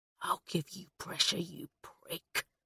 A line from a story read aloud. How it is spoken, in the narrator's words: hissed Wheeler